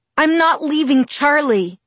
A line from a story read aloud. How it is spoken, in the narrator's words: I yelled